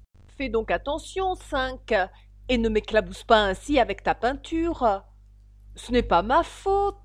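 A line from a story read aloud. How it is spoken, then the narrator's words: Gruff tone. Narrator (French): dit Cinq d'un ton bourru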